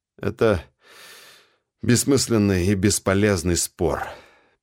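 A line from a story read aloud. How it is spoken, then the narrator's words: Sad sigh. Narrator (Russian): печально вздохнул я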